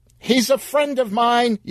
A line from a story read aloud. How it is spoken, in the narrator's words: yelled Sheila, sprinting out of the darkness